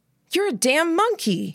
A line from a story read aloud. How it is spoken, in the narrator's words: called out